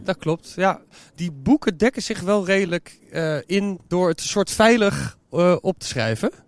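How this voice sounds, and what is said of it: Hague Dutch accent. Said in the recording (Dutch): “je Haagse accent ... de babbelzieke Haagenees”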